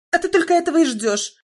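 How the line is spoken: Shrill interruption. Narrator (Russian): визгливо оборвала ее мать

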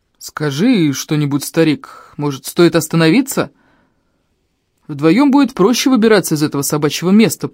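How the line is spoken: Low booming voice. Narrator (Russian): прогудел Ильм

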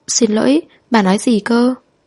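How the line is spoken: Trembling question. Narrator (Vietnamese): Cô run rẩy hỏi

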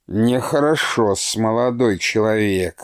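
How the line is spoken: Grumbling. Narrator (Russian): ворчал Прокофий Осипыч

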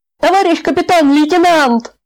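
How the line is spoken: Guard yelling from doorway. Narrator (Russian): заорал караульный от дверей

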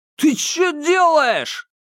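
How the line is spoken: Shout. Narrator (Russian): крикнул Ма Сяо Джуну парень

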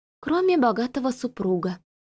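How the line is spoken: Muttering. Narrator (Russian): пробормотала Марта

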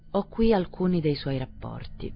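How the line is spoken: Mild, weary voice. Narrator (Italian): disse il burocrate con voce inaspettatamente mite e stracca

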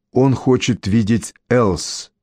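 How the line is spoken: Plain. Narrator (Russian): ответил я

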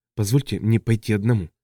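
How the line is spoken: Convinced whisper. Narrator (Russian): прошептал Шол, попавший под власть внезапного и неоспоримого убеждения

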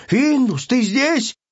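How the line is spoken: Shouting. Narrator (Russian): Он кричал

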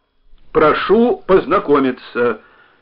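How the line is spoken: Stern voice. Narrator (Russian): тем же строгим голосом произнес Родион Мефодьевич

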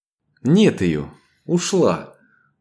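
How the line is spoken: Disappointed exhale. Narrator (Russian): разочарованно выдохнула Ева

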